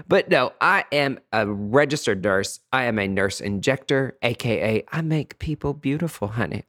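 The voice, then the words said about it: Southern country accent. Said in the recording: “If you cannot tell from the accent, I've tried to get rid of it a little bit ... you can take the boy out of the country, but you can't take the country out of the boy”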